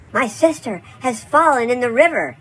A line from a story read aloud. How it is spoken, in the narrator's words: she cried to him